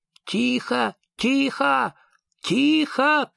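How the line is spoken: Shout. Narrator (Russian): крикнул король

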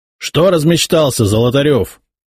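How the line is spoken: Sudden bark. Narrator (Russian): рявкнул вдруг он

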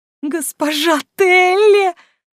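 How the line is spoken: Wailing. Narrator (Russian): взвыла та

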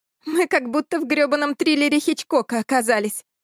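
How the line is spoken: Drunken giggle. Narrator (Russian): пьяно хихикнула Эля

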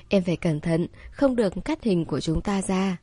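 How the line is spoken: Whispering. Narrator (Vietnamese): Tôn Điềm Điềm ... nhỏ giọng nói thầm

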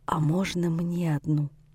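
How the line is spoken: Near-whispered request. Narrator (Russian): чуть ли не шепотом просит

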